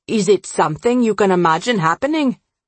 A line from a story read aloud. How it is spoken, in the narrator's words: Amisha asked, her voice harsher than she meant it to be